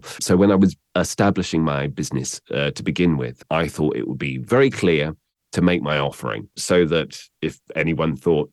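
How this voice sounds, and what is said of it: Southern British received pronunciation accent. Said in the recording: “RP refers to my accent, which is received pronunciation ... received pronunciation, kind of Southern, relatively neutral ... it's relatively neutral”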